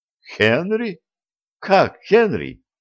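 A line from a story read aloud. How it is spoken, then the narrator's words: Astonished exclamation. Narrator (Russian): воскликнула она в полнейшем изумлении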